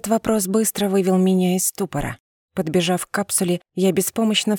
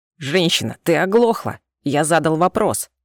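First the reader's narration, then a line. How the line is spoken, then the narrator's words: Growled angrily. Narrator (Russian): Прорычал на меня этот ушастый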